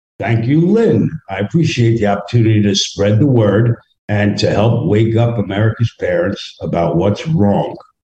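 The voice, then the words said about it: Northern US accent. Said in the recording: “you got to be a transplant if you're down in Florida and you got that accent ... You're up north somewhere.”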